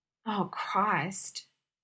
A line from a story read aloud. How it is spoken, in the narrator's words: Jim moaned softly, unable to look up